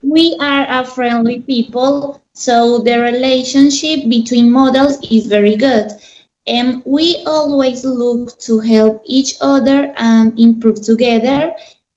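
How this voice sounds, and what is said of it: Colombian accent. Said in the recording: “Is that accent Colombian?”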